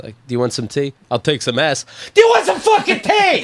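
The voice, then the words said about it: Imitates another person snapping angrily. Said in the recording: “That was a good impression.”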